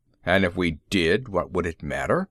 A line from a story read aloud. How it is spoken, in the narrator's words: grumbled a bass tone